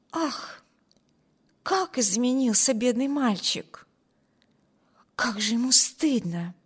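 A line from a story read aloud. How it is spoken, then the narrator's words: Whispered. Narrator (Russian): прошептала Алис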